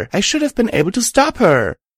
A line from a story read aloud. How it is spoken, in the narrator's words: I said frantically